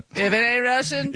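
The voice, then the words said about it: Kansas accent impression. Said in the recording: “This is John Sr.'s voice. ... That's his Kansas accent.”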